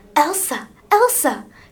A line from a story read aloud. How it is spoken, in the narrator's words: said urgently